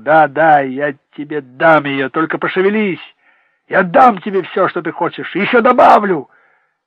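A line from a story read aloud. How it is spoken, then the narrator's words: Shouting. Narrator (Russian): Бред кричал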